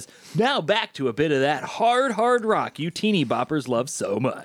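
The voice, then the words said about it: Radio DJ voice. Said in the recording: “That's a good DJ voice.”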